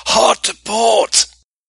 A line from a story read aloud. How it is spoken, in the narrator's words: howled at the third officer